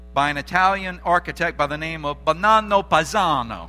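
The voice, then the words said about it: Put-on Italian accent. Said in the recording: “my Italian accent”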